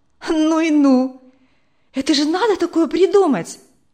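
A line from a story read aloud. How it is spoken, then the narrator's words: Exclaiming. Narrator (Russian): воскликнула Вера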